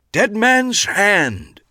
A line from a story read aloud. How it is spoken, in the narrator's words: he boomed